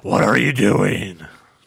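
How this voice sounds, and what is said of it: Imitates another person's voice. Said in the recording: “That was my bad Giant impersonation ... No, that was a good one.”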